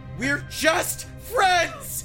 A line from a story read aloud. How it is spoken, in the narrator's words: I screamed as I ran out of there